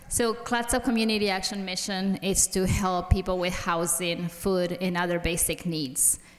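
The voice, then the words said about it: Non-native English accent. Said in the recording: “I have an accent because I speak three languages, so I hope everybody understands me”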